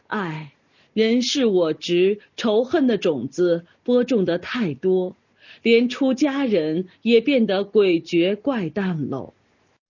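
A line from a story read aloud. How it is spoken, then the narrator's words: Sighing, persuading. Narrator (Chinese): 凤池先生劝说着，不禁喟然长叹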